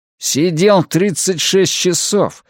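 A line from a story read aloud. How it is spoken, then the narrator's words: Angry. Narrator (Russian): зло сказал маньяк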